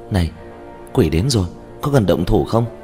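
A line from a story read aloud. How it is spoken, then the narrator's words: Quiet, barely contained excitement. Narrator (Vietnamese): Trương Tiểu Nhị nhỏ giọng, trong âm thanh mang theo hưng phấn khó có thể kiềm chế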